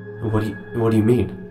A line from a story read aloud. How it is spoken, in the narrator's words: He asks, his voice trembling